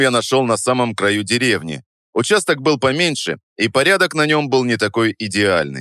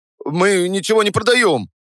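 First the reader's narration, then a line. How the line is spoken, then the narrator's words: Hurried. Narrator (Russian): торопливо сказал он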